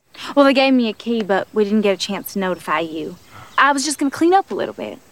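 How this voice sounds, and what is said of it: Put-on Southern American accent. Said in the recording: “puts on her Southern accent”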